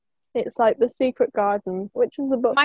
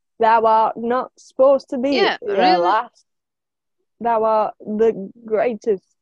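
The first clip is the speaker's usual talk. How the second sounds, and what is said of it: Put-on Yorkshire accent. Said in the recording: “I had to speak like a Yorkshire person ... It's really hard ... the Yorkshire accent.”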